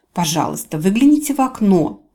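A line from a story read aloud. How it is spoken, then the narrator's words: Growled. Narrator (Russian): прорычала Фэм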